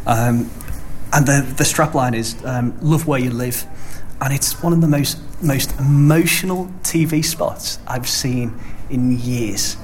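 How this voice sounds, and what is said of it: Liverpool Merseyside accent. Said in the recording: “this stupid accent. You probably know that's where I've been dragged from ... Radio Merseyside”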